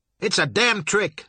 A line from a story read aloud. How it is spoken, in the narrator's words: Sour Billy shouted